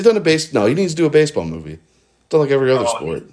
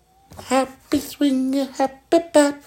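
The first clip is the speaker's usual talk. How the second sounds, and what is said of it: Imitates another person's voice. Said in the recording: “my Adam Sandler impression”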